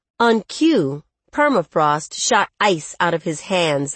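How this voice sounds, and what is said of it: Usual voice. Nothing is said of it.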